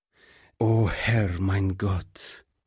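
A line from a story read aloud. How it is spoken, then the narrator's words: Pastor groans. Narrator (German): stöhnte der Pastor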